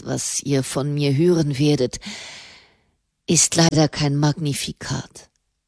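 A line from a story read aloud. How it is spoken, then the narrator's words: Sighing. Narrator (German): seufzte der Papst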